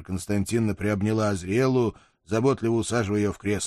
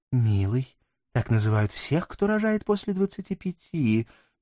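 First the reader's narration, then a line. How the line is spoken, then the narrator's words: Gentle correction. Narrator (Russian): мягко поправила моя жена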